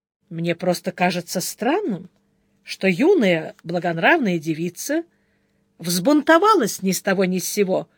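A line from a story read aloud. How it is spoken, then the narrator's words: Calm. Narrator (Russian): спокойно ответил монах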